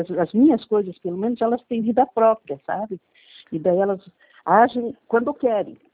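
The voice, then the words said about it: Tired, fatigued voice. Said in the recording (Portuguese): “tá com voz de fadiga”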